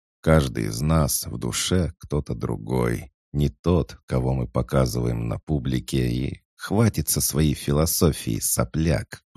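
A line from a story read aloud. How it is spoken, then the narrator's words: Through gritted teeth. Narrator (Russian): процедила Аркемия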